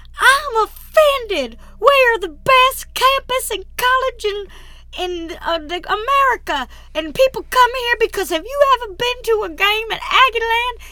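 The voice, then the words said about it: Poor, angry imitation of another person. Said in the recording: “Jimbo so angrily ... That was probably the worst Jimbo Fisher impression I've ever... ... It was terrible.”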